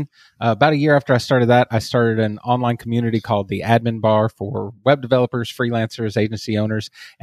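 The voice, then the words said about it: Texas accent. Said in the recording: “As you can probably hear from my accent, I am from Texas.”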